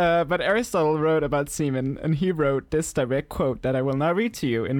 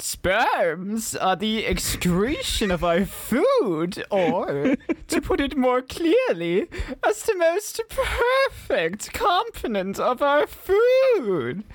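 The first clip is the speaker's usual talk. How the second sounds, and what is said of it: Imitates another person's voice. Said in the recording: “in my best Aristotle voice, like how I imagine he would talk if he was voiced by me.”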